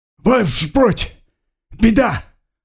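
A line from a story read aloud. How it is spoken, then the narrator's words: Yelling. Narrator (Russian): орал он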